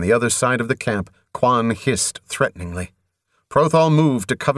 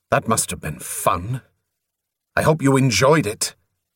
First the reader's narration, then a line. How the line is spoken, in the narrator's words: he snarled